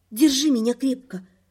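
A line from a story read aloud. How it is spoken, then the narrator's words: Whisper. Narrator (Russian): шепнула напряженному Риду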